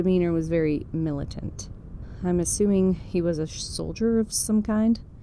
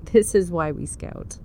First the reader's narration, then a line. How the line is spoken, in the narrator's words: in a condescending tone, declared